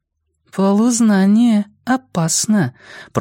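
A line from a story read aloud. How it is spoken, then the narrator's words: Cooing. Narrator (Russian): проворковала Джулия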